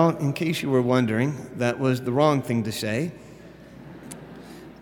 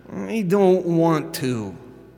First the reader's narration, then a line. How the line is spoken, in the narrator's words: whined